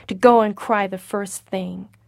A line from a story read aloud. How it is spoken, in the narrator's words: said Joel harshly